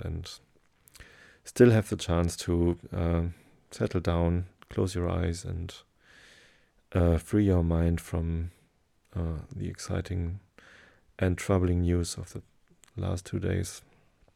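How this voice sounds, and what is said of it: German-accented English. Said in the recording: “German is my mother tongue and English is just a learned language ... my strange accent”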